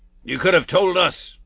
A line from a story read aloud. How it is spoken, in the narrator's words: growled Mr